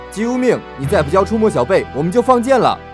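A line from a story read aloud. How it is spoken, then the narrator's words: Crowd shouting. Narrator (Chinese): 众人喊道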